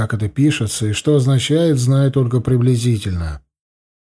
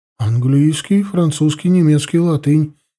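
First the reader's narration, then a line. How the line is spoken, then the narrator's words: Frightened report. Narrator (Russian): испуганно отрапортовала она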